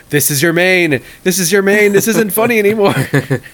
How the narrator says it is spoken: I just started yelling into the camera

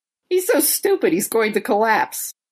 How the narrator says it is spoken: Hiruma cackles and goes

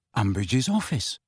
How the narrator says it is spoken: said Harry quietly

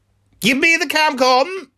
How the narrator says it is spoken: yelled Bron

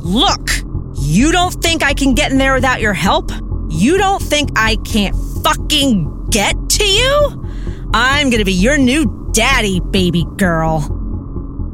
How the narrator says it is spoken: yelling

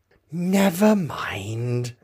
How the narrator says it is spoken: Alice said in a soothing tone

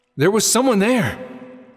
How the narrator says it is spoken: Link gasped

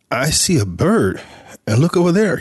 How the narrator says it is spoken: he said, pointing excitedly

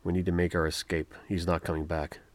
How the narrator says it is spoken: Sama, realizing the position they were in, whispered to Rowan

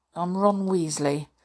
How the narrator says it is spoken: Ron muttered

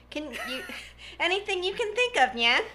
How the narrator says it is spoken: She giggled

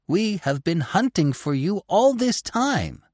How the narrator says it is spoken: cried Gobbo

